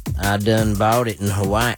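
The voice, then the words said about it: Lingering unusual accent. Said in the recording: “I'm trying to get my regular accent back to normal ... Stop it with this accent.”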